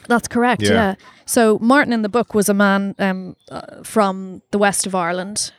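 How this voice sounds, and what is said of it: Irish accent. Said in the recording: “I'm Irish, as you can probably tell from accent. ... It's the Irish accent.”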